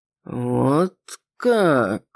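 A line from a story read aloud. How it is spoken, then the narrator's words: Drawn-out drawl. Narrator (Russian): протянул гость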